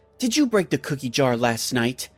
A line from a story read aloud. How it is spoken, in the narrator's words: I said in an angry voice